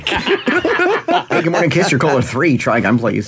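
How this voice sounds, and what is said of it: Put-on radio announcer voice. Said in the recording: “It's my radio voice.”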